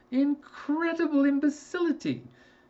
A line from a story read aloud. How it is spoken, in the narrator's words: He cried